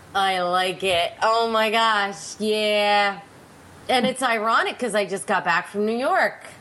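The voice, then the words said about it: Nasal, congested voice. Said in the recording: “Why do I always sound like I'm from New York when I have a cold? ... you have that little nasally little accent. That Pennsylvania accent mixes in with your nasal juices”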